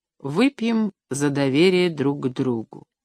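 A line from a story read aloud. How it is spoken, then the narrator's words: Quiet. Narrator (Russian): Леонид тихо сказал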